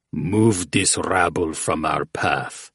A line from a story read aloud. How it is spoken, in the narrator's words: Fuchtus rumbled